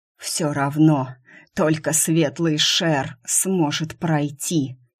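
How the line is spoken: Mocking hoarse rasp. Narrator (Russian): Насмешливо прохрипел капитан

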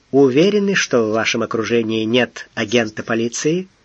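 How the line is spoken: Calm reply. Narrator (Russian): Дрозд спокойно ответил

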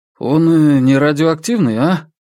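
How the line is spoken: Worried question. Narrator (Russian): обеспокоенным тоном спросил Крис

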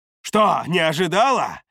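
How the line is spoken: Barked. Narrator (Russian): рявкнул я

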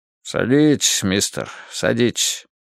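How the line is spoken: Grumbling. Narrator (Russian): проворчал Буллин

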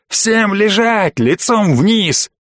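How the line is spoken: Wild, frantic yelling. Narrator (Russian): от шока отошел я и заорал дурным голосом

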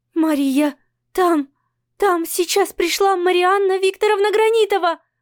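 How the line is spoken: Blurted, trembling voice. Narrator (Russian): выпаливает она дрожащим голосом

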